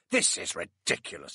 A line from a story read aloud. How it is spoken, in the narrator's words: grumbled